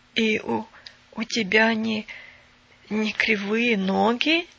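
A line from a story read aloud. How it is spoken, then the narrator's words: Even hoarser question. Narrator (Russian): еще более хрипло спросил Бен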